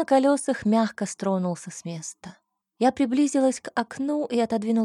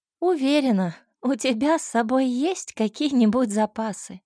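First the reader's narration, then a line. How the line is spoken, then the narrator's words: Giggling. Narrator (Russian): хихикнула я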